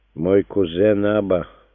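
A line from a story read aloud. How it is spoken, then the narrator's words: Gloomy. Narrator (Russian): мрачно начал Иосиф бен Матафей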